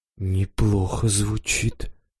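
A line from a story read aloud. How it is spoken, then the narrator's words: Muttered. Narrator (Russian): пробормотал Жора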